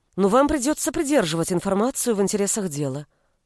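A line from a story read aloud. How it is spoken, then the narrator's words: Quick. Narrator (Russian): быстро добавила я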